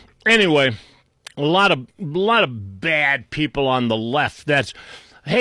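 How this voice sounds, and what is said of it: Usual voice. Nothing is said of it.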